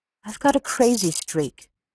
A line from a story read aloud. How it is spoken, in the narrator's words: she faltered